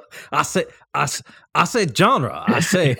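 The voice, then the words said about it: Bad Foghorn Leghorn cartoon voice. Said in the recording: “why did you sound like Foghorn Leghorn? ... it's horrible, just horrible. ... My Foghorn Leghorn accent is indeed pretty bad.”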